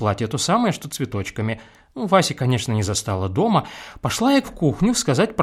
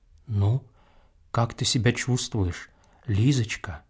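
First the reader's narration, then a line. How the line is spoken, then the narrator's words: Whispered question. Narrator (Russian): спрашивает он шепотом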